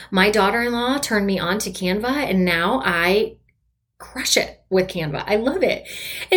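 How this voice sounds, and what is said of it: Proud, excited tone of voice. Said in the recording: “you can probably hear the inflection in my voice ... because I am so proud”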